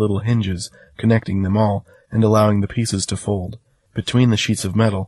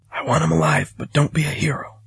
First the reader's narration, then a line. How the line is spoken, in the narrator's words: I whispered over the rising dust